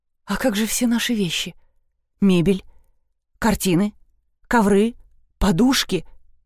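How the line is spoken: Horrified whisper. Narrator (Russian): словно до нее только что дошел весь ужас потери, она прошептала

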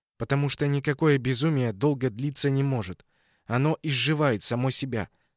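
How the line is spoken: Plain. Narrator (Russian): сказала она

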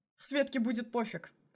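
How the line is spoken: Snort. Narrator (Russian): хмыкнул Мишин

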